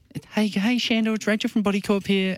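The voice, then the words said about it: Man putting on a girl's voice. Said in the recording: “I actually put a girl's voice on.”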